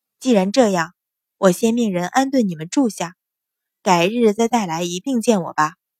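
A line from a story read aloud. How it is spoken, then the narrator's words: Soft sighing. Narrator (Chinese): 叹了口气，轻声道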